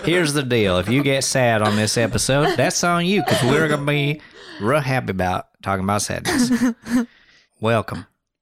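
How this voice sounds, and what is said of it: Put-on Southern accent. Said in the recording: “I feel like I can do a really good Southern accent.”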